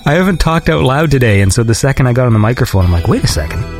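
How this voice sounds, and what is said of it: Congested voice, sounds like a cold. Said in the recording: “I sound like I have a cold.”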